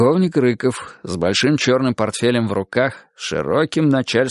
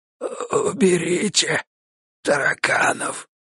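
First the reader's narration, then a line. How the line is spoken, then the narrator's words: Very quiet hoarse rasp. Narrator (Russian): хрипнул еще тише Леха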